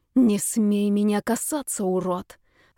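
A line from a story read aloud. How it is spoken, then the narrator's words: Through gritted teeth. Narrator (Russian): сказала сквозь зубы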